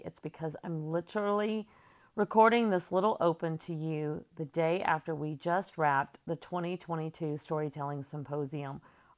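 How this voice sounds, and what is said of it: Tired-sounding voice. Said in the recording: “my voice sounds a little tired today”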